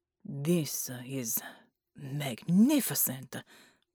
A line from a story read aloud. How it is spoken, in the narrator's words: breathed Marconi